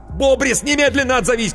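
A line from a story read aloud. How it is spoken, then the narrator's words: Shouting into phone. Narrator (Russian): кричал в трубку Коровин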